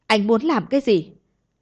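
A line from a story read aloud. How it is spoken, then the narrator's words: Terrified scream. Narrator (Vietnamese): Lam Tuyết sợ hãi tới mức hét lên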